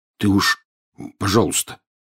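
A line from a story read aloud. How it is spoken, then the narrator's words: Muffled mumble. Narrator (Russian): приглушенно пробормотал Рон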